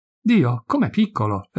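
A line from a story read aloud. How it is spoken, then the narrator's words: Sisters exclaiming in chorus. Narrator (Italian): esclamarono allora a coro, le 3 sorelle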